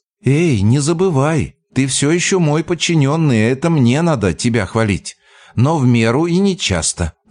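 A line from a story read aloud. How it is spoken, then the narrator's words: Laughing. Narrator (Russian): засмеялась она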